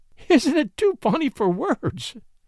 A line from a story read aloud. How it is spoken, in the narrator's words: she laughed bravely through her tears